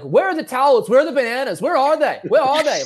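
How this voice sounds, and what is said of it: Australian accent imitating Nick Kyrgios. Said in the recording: “Nick Kyrgios ... You've been working on that Australian accent.”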